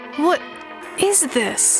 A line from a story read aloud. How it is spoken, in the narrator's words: choked